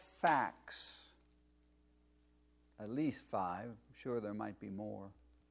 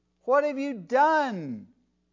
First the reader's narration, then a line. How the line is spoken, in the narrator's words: cried out